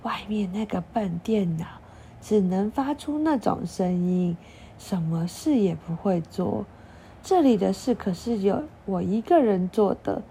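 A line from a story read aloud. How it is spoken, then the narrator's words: Old man, hushed. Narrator (Chinese): 老公公压低声音说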